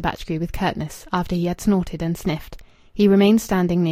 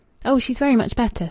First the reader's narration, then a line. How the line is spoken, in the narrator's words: said Rachel eagerly